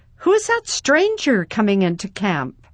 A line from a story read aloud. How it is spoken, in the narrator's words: Suddenly, a boy called out